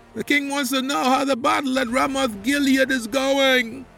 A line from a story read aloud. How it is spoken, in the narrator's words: the rider shouted